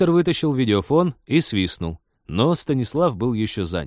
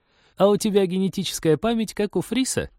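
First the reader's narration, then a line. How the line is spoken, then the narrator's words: Giggling, from a distance. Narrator (Russian): хихикнула от дерева Полина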